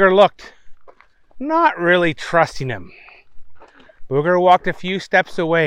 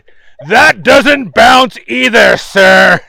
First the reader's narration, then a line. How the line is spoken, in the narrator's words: the employee shouted